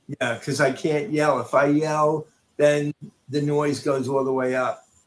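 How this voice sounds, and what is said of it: Lower, quieter voice than usual. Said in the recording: “my voice is lower”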